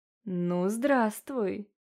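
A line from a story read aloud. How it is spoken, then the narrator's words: Menacing purr. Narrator (Russian): промурлыкал голос из ее кошмаров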